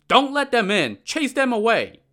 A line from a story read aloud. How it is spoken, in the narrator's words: shouted to his men